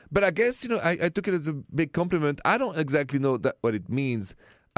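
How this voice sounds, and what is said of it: Foreign-accented male English. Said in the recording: “She thought my accent was funny”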